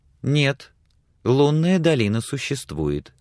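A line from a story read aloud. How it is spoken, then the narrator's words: Calm objection. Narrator (Russian): спокойно возразила Сексон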